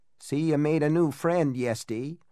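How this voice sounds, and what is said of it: Trembling old man, thick Yankee accent. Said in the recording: “a trembling old man's voice ... The Yankee accent was so thick that it sounded almost like a joke ... that sing-song tone ... sound like auctioneers”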